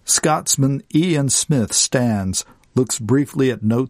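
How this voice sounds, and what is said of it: Usual voice. Nothing is said of it.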